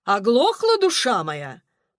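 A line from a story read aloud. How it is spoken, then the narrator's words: Thundering voice. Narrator (Russian): прогремела тетя Сатина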